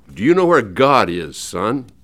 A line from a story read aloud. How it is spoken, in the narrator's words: The preacher, a huge man with a deep, booming voice, asked sternly